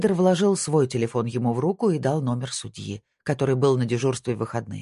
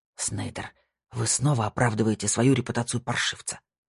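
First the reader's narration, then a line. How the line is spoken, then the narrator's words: Low hiss. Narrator (Russian): прошипел Франки, понизив голос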